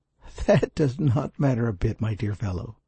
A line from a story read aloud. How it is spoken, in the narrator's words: laughed